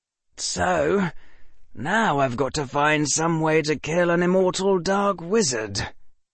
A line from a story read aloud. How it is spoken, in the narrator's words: Harry said and sighed in frustration